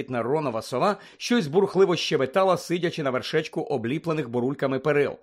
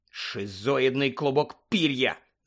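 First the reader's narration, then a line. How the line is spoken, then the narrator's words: Hissing. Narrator (Ukrainian): зашипів Рон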